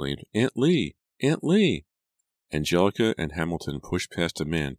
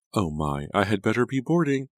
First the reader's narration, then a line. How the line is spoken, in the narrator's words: Aunt Lavinia exclaimed